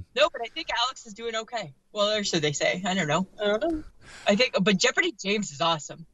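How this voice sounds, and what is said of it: Lilting accent with distinctive pronunciation. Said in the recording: “all the different words that you guys pronounce funny ... the lilt of your voice, just the way you pronounce things ... I even put like a U in favorite”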